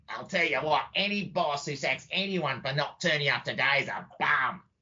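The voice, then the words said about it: Poor imitation of another person's voice. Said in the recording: “that's a pretty dodgy Bob Hawke impersonation”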